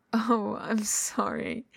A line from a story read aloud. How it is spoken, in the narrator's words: Wei Ying says, hitched on a laugh again